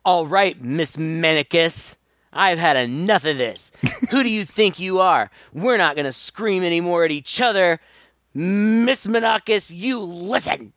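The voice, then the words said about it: Imitates a character's voice. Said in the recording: “That's a pretty good imitation.”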